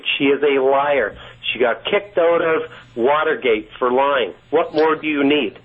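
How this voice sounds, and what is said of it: Canadian accent. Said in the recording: “I know you're Canadian because I just heard it in your accent”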